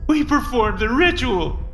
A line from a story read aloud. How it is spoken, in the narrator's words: he sobbed